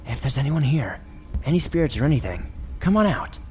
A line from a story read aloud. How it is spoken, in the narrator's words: jokingly whisper shout